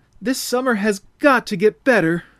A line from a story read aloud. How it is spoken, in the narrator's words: Through a stream of tears, cried out aloud